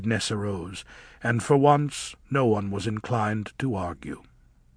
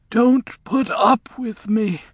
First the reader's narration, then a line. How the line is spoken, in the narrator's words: she was saying wildly